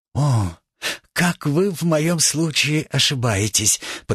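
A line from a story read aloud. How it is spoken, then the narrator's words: Quiet, conciliatory. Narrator (Russian): подхватил швейцарский пациент тихим и примиряющим голосом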